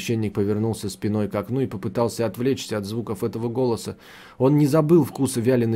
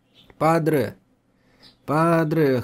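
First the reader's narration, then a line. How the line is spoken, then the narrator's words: Childlike whimpering. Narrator (Russian): хныкал Китидзира, словно ребенок, просящий прощения у матери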